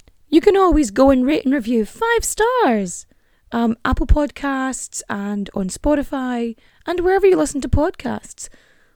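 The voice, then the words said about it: Hoarse, fading voice. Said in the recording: “losing my voice this whole time, probably from the ranting”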